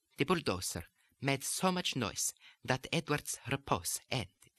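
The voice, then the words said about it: Put-on Italian accent. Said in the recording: “the lesson on the consonants of the Italian accent”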